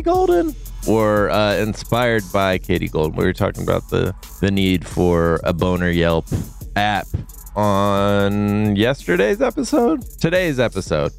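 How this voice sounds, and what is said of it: Deep voice, sounds sick. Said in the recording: “I have a deep voice because I'm sick.”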